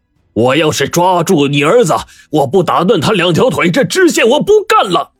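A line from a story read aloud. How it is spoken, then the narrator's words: Enraged shout. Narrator (Chinese): 知县被张员外的强硬态度彻底激怒，冲着他的背影就喊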